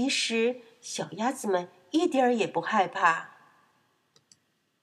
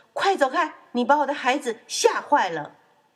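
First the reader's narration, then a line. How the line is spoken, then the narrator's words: Loud. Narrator (Chinese): 大声说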